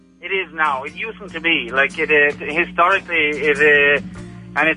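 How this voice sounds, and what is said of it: Authentic Irish accent. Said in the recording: “real authentic Irish accent”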